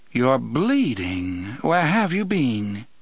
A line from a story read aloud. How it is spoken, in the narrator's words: She made this inquiry in her cultured Vassar voice, pronouncing bean so it rhymed with seen